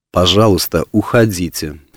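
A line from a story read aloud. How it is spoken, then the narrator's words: Cold. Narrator (Russian): холодно сказала она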